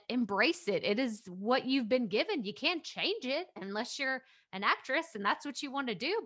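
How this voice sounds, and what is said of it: Speaks with a noticeable accent. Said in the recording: “I've got an accent”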